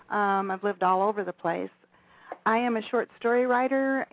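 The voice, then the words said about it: Non-local accent. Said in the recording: “I'm not native here, as you can probably tell from my accent.”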